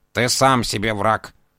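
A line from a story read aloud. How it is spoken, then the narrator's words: Grumbling. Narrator (Russian): проворчал кот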